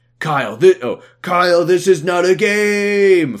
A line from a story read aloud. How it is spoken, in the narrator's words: Foss yelled back